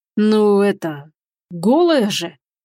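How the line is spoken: Embarrassed strained words. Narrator (Russian): выдавил старший помощник краснее

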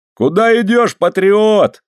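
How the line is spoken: Yell. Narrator (Russian): заорал я

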